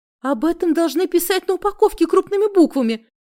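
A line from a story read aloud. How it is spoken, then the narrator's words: Sobbing. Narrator (Russian): всхлипнула я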